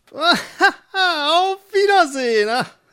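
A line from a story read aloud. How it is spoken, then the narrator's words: Sorceress laughing, calling out. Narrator (German): lachte die Zauberin und rief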